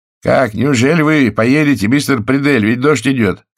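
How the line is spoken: Shouted. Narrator (Russian): крикнул кто-то из стоявших на веранде

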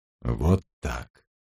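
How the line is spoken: Muttered. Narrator (Russian): пробормотал он

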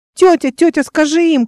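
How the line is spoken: Child shouting. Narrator (Russian): кричал мальчик

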